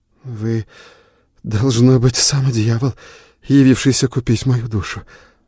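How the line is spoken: Mutter. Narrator (Russian): пробормотал Адольф

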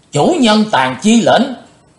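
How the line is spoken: Crowd shouting in unison. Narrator (Vietnamese): gần 200 cao thủ đồng thanh quát lớn

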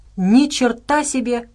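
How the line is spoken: Joyful boyish laughter. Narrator (Russian): радостно рассмеялся Отто, словно мальчишка

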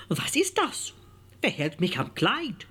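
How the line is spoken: Startled cry. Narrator (German): erschrak sie und rief

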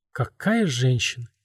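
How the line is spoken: Quiet. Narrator (Russian): тихо проговорил он

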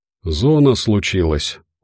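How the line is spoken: Tired. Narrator (Russian): устало ответил Забы-Ягода

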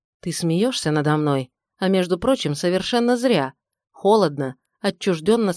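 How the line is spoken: Plain. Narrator (Russian): сказал

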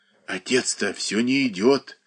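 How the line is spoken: Boy whispering in ear. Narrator (Russian): шептал мальчик на ухо

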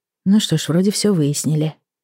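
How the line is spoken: Sigh. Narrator (Russian): вздохнула я

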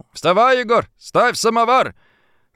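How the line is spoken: Shout. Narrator (Russian): Степан, крикнул

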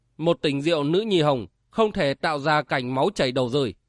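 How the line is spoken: Stern. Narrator (Vietnamese): Thiên Tống nghiêm giọng nói

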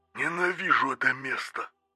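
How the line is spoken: Grumbling. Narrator (Russian): проворчал Меркуций

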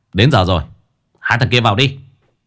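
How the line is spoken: Shout. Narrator (Vietnamese): hai người lính quát

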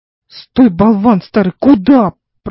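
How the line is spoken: Groaning. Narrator (Russian): простонал Теотим

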